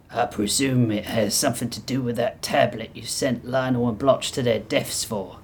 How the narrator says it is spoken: Ludwig spat

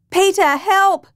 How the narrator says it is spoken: Peter's wife Janelle shouted

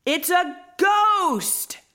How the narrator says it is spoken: they all shouted

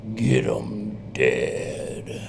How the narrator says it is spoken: it says in a low voice

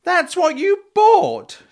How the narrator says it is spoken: she cried

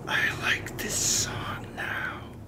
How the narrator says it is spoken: He whispered behind closed teeth

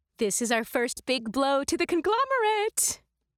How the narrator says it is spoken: Beazle chirped in our minds

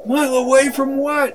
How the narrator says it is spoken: Annie cried out

